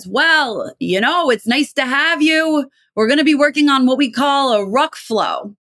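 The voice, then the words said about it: Imitated Brooklyn accent. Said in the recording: “from Brooklyn. And she had this amazing accent.”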